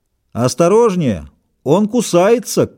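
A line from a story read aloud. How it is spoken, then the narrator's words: Shout. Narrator (Russian): крикнул кто-то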